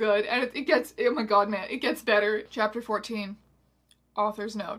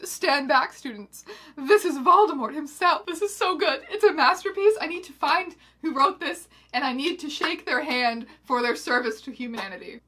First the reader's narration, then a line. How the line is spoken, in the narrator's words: he stopped and gasped and then shouted